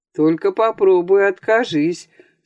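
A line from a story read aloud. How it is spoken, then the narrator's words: Mocking, cheerful. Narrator (Russian): сказал он насмешливо весело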